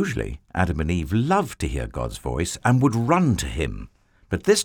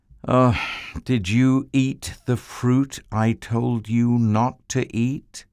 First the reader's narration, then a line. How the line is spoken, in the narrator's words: God asked them